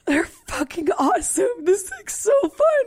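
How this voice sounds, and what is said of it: Squeaky, high-pitched excited voice. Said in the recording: “My voice is getting squeakier.”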